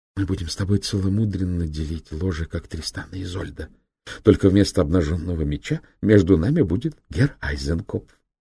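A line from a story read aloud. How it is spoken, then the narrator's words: Whisper. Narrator (Russian): шепнула Зоя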